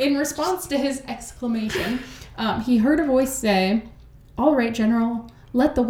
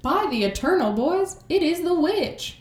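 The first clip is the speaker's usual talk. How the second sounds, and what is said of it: Weak put-on Southern US accent. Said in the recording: “That's my southern accent. It's not great. ... I give it a 3.5 out of 10”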